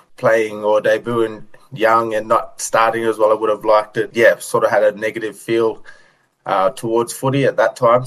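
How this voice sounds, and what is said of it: Australian accent. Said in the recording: “accent sounds very Australian”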